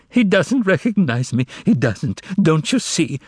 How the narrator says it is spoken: sobbed the secretary

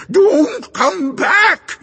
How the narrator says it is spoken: it screamed

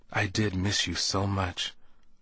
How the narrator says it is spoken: she whispered against my chest

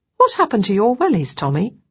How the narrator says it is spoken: I asked

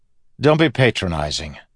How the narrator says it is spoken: Kelsier snapped

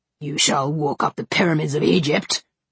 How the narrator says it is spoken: he growled

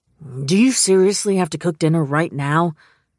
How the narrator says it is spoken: Jonah growled

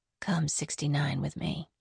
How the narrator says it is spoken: She whispered in his ear

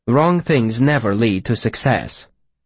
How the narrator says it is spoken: Vachette said firmly

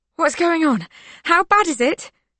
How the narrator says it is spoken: Mikhail gasps, panic rising

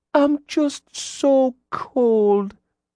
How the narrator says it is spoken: she whimpered

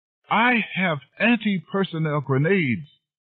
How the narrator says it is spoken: suddenly let out a piercing, high scream

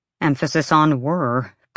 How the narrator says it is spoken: Bryce muttered

